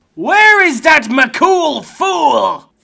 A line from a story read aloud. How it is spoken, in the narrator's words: the Scottish giant shouted